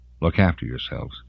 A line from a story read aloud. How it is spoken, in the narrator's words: she mumbled